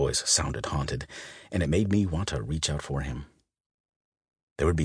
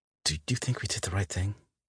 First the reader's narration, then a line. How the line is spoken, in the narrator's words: he asked quietly